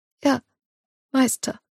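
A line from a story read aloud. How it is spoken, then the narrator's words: Squeaky, feeble answer. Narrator (German): antwortet sie piepsig mit kraftloser Stimme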